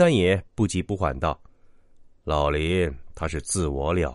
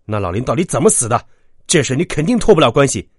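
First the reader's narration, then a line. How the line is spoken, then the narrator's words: Angry. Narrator (Chinese): 秦牧怒道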